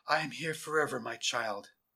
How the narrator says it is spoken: the voice whispered

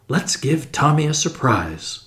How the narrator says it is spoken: murmured Tuppence

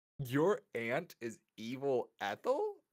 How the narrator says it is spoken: Ryland laughed

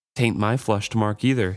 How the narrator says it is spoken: exclaimed with dim humor

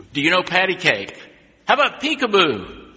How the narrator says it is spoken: the man began shouting across the room

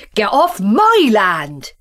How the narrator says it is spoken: he shouted back

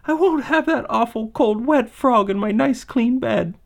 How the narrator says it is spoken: she sobbed

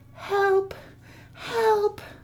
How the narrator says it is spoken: the girl call faintly

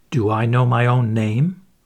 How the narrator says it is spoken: exclaimed Trent

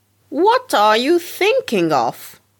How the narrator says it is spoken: cried the hen

